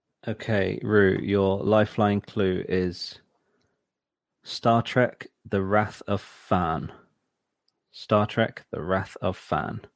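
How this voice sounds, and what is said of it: Posh accent. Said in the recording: “posh accent”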